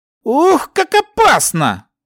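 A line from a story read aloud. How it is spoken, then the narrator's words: Joking exclamation. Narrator (Russian): шутливо воскликнул лучник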